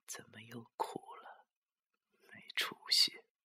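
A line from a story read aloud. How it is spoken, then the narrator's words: Murmuring. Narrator (Chinese): 他喃喃的说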